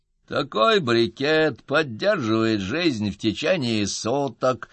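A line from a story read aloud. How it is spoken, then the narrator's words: Creaky voice. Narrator (Russian): скрипучим голосом объяснил сержант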